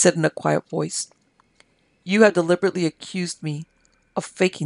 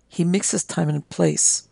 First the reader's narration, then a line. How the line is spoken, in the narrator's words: murmured Ramsalal